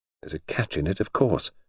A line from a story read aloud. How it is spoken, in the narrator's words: she murmured